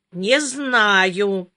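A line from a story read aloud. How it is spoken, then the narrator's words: Drawling. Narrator (Russian): протянула Жанна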